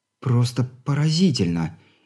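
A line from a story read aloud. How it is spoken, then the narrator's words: Amazed breathy exclamation. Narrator (Russian): Изумляясь такому достижению человеческой мысли, скорее выдохнула, чем произнесла Алина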